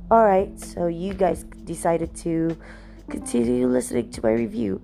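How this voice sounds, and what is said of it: Slightly weird-sounding speech. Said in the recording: “I sound a bit weird right now. I have an ulcer on the tip of my tongue, so it kind of hurts.”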